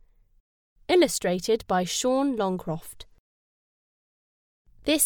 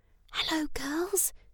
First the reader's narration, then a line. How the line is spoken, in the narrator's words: she whispered sadly